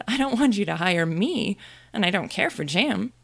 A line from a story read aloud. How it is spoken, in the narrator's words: Alice couldn't help laughing as she said